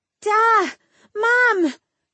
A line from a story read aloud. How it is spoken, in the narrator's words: Adarin shrieked